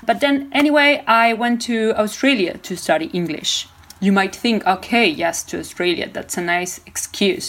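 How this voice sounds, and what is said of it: Argentine Spanish accent in English. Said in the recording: “we speak Spanish in Argentina. You can maybe perceive it in my accent.”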